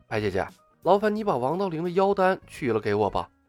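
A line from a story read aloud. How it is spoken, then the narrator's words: Hushed voice. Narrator (Chinese): 李牧压低了声音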